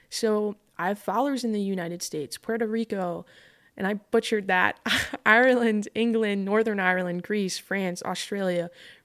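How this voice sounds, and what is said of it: Long Island accent. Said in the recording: “The Long Island accent is going to keep coming out as I get more passionate.”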